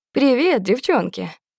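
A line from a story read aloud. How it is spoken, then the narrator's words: Said cheerfully. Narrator (Russian): весело говорит Клим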